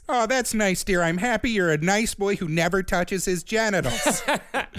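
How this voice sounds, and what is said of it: Put-on Midwestern-sounding mom accent. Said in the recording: “where am I from? What is this accent? ... It's some scary, like, below Wisconsin something.”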